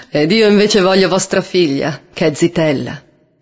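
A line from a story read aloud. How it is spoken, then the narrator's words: Laughing reply. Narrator (Italian): rispose Nanni ridendo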